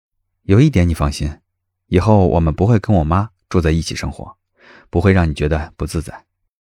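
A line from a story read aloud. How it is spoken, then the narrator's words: Calm, light. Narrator (Chinese): 他又清清淡淡的补充了一句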